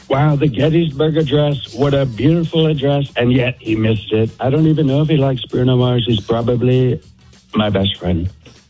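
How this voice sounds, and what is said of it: Imitates another person's voice. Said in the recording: “I can do Trump ... Let's hear President Trump ... Okay, that's really good ... That's really good ... we don't get people that do good impressions”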